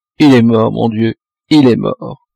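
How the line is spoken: Weeping, broken voice. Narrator (French): Ma pauvre Marguerite pleurait, répétant d'une voix déchirée

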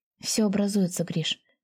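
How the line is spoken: Quiet. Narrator (Russian): негромко сказала

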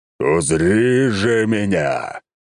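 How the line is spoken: Roaring. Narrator (Russian): взревел рыцарь

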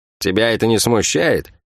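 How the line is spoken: Laughing. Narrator (Russian): Шерон рассмеялась

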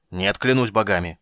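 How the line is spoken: Angry roar. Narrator (Russian): проревел Карамон гневно

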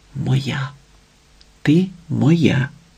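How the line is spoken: Whispered. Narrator (Ukrainian): шепотів Платон

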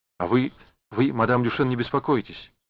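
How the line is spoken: Hurried, forced cheer. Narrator (Russian): торопливо сказала она, изображая улыбку

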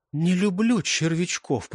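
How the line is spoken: Whisper. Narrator (Russian): прошептала Клэр

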